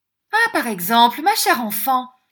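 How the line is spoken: Surprised exclamation. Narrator (French): s'écria Madame Montalini, reculant de surprise

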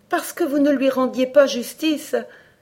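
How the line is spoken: Exclaiming. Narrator (French): s'écria Alice

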